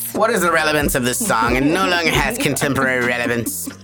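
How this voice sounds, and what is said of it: Affected cartoon villain character voice. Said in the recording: “gaining this like little persona that's the Frieza accent”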